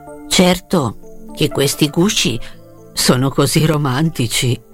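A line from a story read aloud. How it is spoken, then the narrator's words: Soft remark. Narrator (Italian): si limitò a farle notare sottovoce il vecchio lupo spaziale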